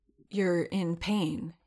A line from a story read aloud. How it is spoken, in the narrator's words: he said hoarsely